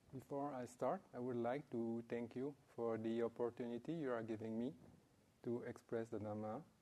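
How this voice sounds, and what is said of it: Non-native English accent. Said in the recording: “sometimes difficult to understand with the accent”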